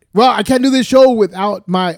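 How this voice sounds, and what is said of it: Loud, excited yelling. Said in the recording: “damn, I'm yelling into the thing ... I'm getting excited here”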